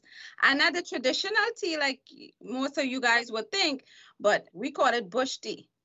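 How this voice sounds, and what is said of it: Trinidadian Caribbean accent. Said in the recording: “I have an accent, right? ... So I'm from the Caribbean, which is Trinidad and Tobago.”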